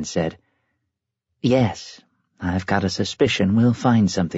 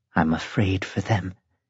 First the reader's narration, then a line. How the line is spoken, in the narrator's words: she said in a troubled voice